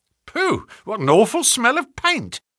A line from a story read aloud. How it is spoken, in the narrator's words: cried the inspector